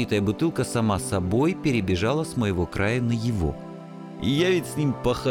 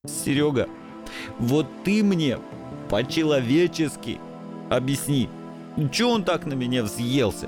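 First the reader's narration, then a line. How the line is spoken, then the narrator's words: Sobbing mumble. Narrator (Russian): Все еще всхлипывая, забормотал несчастный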